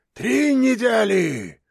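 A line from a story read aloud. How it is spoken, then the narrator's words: Menacing voice. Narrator (Russian): страшным голосом сказал Антон Антонович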